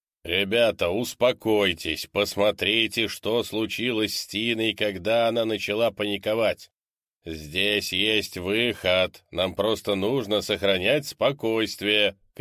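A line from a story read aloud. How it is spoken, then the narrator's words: Shouting. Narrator (Russian): крикнул Декс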